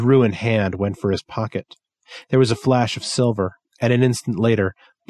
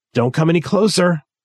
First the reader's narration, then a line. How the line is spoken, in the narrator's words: Gary said, his voice breaking